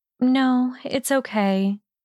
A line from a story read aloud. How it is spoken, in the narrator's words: Hermione sighed reluctantly